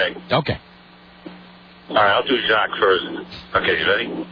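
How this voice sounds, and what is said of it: Usual voice. Nothing is said of it.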